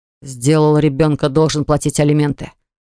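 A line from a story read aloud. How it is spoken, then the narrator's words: Growling. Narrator (Russian): прорычал Ливон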